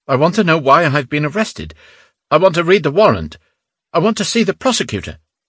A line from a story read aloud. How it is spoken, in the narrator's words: Innocenti blurted out